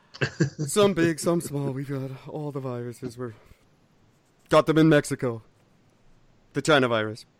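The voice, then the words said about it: Unconvincing Donald Trump impression. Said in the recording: “That doesn't sound anything like Donald Trump. I don't know why that's my Trump voice. ... impersonations don't sound at all like the person I'm impersonating.”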